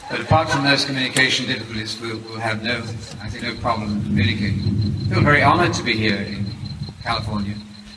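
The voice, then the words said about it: British English accent. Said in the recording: “I speak English with a British accent”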